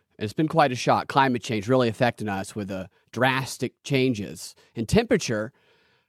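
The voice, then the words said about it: Sarcastic delivery. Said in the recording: “I'm being sarcastic”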